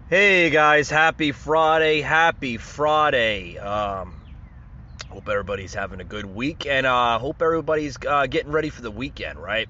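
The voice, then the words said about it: Sick, allergy-affected voice. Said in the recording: “As you can hear in my voice, feeling a little under the weather. ... I suffer from allergies”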